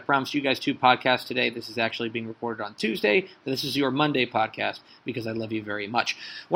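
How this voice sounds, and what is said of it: Hoarse, nearly lost voice. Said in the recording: “I've lost my voice, but I'm trying to power through it.”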